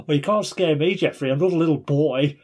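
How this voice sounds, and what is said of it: Thick Australian accent. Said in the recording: “in a thick Australian accent”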